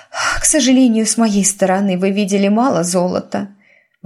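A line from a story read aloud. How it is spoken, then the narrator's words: Sighing. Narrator (Russian): вздохнула герцогиня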